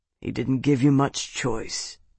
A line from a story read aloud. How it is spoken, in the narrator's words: Bernard rumbled